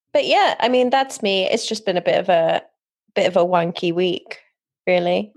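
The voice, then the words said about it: British accent. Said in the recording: “that phrase sounded really great with your accent ... Is this your British family?”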